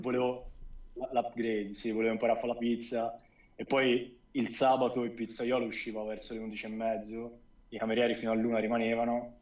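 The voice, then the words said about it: Tuscan Italian accent. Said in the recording (Italian): “toscano, sembra parlare con toscano ... Toscano l'avevamo capito, penso tutti”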